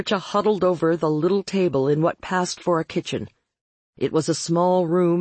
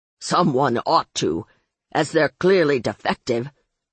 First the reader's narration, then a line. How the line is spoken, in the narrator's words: the old man snapped